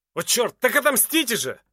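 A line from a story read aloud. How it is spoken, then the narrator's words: Shouted back. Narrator (Russian): крикнул в ответ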